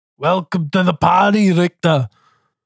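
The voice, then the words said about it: Arnold Schwarzenegger impression. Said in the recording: “I dipped in and out of the accent there, but I finished strong ... That was a powerful Arnie.”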